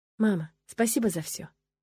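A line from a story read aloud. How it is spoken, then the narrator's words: Quiet. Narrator (Russian): тихо сказала я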